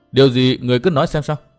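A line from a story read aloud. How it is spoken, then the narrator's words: Raised voice. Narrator (Vietnamese): Tư Mã Minh cao giọng nói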